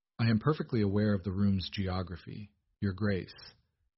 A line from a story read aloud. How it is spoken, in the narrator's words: Beatrice replied flatly